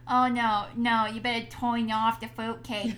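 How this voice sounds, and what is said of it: Character voice with Jersey accent. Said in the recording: “Is that the Jersey accent? ... Yeah,”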